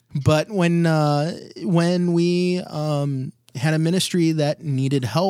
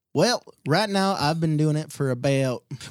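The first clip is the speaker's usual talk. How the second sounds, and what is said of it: Bad fake Southern accent. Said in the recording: “are you from the South ... Or are you not from the South? ... I'm not from the South at all. That's just a really, really bad fake accent.”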